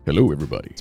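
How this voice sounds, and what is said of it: Deep, low bass voice. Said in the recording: “you could get down like this, and so you can hear the bass in my voice”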